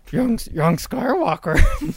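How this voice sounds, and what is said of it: Attempted Yoda character voice. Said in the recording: “Do you have a good Yoda impersonation? ... I can try. ... Nope.”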